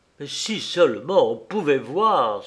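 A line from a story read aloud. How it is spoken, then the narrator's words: Exclaiming. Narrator (French): s'écria-t-il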